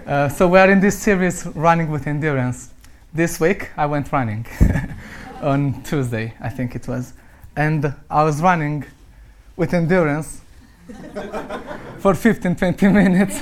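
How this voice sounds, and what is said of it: Romanian accent. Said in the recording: “you'll hear an interesting accent because I'm Romanian”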